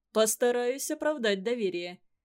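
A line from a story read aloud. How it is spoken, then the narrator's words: Cheerful warm bass. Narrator (Russian): Иван Иванович, повеселев, ответил потеплевшим баском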